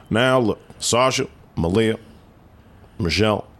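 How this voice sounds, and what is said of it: Barack Obama impression. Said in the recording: “I can do Obama.”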